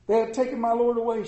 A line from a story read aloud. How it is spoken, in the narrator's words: she said